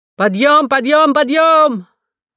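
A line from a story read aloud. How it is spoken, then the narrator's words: Shouting, moving along corridor. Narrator (Russian): Кто-то шел по коридору и кричал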